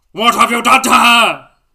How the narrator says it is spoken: Bellatrix yelled

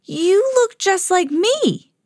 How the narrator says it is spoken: shouted at the same time

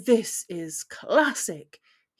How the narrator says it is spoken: he chuckled

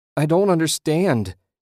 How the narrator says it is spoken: wailed

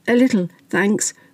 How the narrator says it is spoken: croaked Mandy

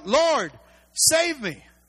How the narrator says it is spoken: he was afraid, and beginning to sink, he cried out

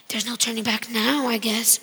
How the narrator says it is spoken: my mom muttered under her breath

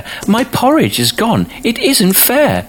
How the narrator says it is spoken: cried the baby bear

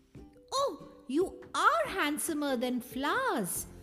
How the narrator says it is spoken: cried Bambi

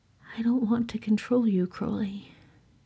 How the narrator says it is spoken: he said softly

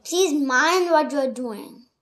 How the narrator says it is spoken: Alice cried

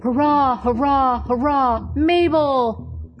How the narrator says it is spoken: the 40 men gave one great shout

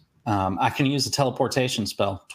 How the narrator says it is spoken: Twilight said

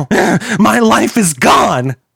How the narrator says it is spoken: Kilroy screamed

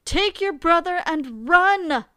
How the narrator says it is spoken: the king shouted

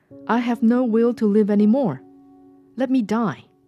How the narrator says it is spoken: she cried

